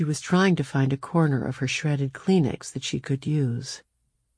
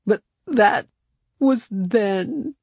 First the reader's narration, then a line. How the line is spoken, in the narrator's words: she sobbed